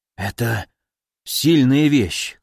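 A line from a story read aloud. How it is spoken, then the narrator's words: Hoarse voice. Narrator (Russian): хрипло сказал он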